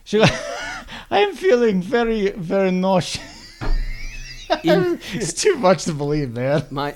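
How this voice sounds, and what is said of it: Put-on Russian accent. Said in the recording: “she had a Russian accent”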